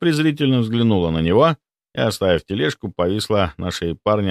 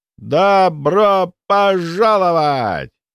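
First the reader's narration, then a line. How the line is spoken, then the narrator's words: Shouted. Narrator (Russian): прокричал тот самый Федя Размыслов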